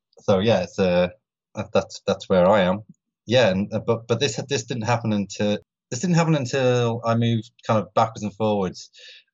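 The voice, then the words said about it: British accent. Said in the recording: “I'm in London, UK, obviously, with a British accent.”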